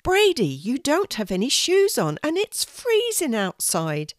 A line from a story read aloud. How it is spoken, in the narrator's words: exclaimed